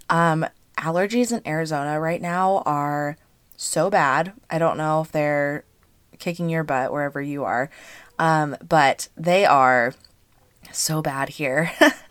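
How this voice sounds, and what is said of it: Hoarse, slightly congested voice. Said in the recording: “I am feeling a little hoarse today ... So my voice is a little hoarse. ... I feel like I sound congested.”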